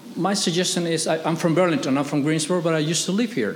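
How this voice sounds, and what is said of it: Latino accent. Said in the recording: “I'm Latino, as you can see from my accent”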